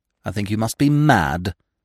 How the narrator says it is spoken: said Lady Constance bitterly

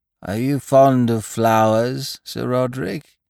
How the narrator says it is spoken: he croaked

